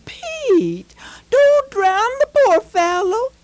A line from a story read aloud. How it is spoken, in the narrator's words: she exclaimed